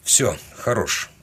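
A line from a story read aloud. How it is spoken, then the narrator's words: Mutter. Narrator (Russian): пробормотал я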